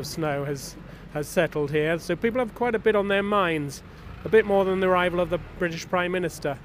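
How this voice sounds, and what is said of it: British accent. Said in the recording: “my accent is a clue ... British”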